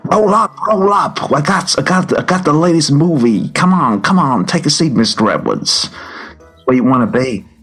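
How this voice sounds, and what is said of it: Put-on New York accent, carnival barker. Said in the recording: “a kind of classic kind of Merlin dragon, but of a New York kind of accent”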